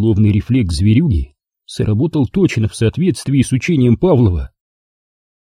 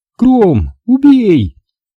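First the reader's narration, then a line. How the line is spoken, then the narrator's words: Shouted. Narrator (Russian): крикнула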